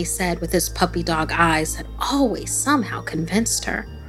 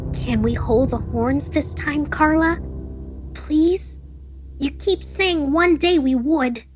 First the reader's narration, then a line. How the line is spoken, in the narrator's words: the boy pleaded